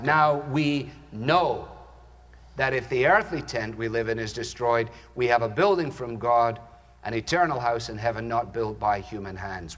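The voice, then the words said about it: Scottish accent. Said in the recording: “hearing him say it in a Scottish accent.”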